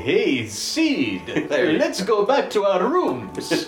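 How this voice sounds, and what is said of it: Count Chocula voice. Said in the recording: “What's the Count Chocula voice? How do you do it? ... How do you do the Count Chocula voice”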